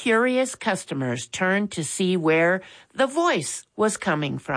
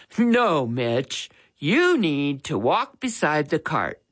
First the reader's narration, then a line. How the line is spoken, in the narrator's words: chuckled